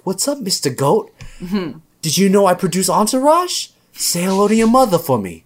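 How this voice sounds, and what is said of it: Mark Wahlberg impression. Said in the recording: “Mark Wahlberg talks to animals ... doing an impression of me”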